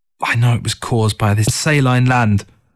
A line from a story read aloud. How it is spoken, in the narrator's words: Through gritted teeth, she muttered